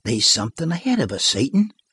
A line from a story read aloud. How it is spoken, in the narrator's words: cried the master softly